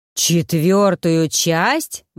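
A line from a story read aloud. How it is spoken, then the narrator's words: Poachers howling. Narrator (Russian): взвыли браконьеры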